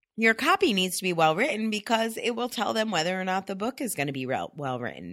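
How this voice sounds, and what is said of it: Deeper voice from a cold. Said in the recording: “I've got a little cold, ... my deeper, sexier voice today”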